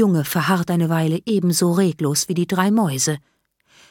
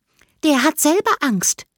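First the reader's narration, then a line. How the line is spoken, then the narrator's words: Squeaky voice. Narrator (German): piepst Isabella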